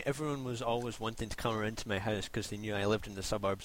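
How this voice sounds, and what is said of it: Rough working-class Scottish accent. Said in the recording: “I have a scaffy accent.”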